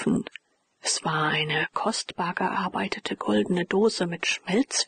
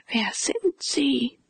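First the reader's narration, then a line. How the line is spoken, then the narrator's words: Gentle call. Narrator (German): rief der Major mit sanfter Stimme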